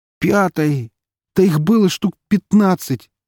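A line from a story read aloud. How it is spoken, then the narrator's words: Emotional exclamation. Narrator (Russian): эмоционально воскликнул Витек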